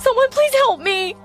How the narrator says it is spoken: I cried hysterically

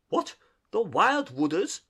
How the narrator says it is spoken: cried Toad, trembling in every limb

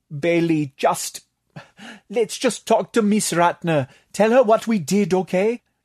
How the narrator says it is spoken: Tatak pleaded

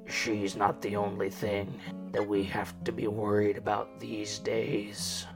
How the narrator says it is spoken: Ford grumbles almost to himself

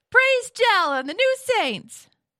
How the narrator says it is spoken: And Nina shouts

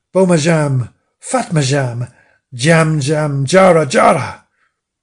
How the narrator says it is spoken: the creature bellowed

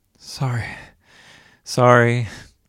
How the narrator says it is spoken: panted

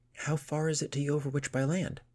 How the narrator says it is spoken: asked desperately

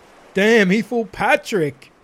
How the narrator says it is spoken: Drizzy Pop Pop called out, keeping up his over-the-top laughing

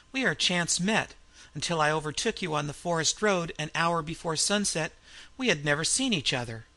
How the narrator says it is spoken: laughed the Frenchman

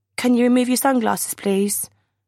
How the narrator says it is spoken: My voice is as shaky as my legs

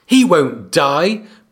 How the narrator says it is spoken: Bran screamed at him

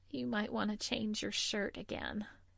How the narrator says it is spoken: said wearily

